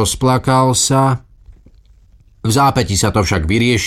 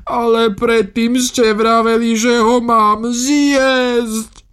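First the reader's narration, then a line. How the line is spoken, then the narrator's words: Whimpering. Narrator (Slovak): fňukal Celestín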